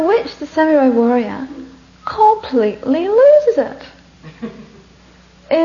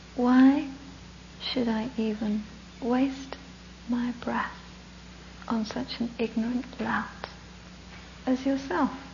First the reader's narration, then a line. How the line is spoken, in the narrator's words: very gently, very calmly, looks up at this huge guy, and he says to him